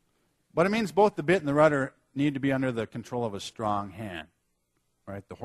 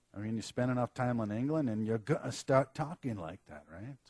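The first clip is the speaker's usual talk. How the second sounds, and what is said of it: Put-on English accent. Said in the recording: “that's supposed to be my English accent.”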